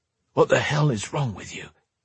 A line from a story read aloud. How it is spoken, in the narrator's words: snapped Drake, in a hushed tone